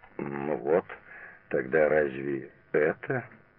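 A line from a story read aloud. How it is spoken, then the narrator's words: Uncertain. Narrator (Russian): неуверенно сказал Алексей Антонович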